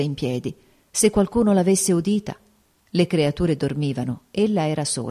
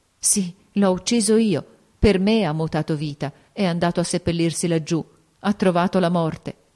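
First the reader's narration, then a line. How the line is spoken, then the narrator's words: Choked voice. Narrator (Italian): con voce strozzata, ella riconobbe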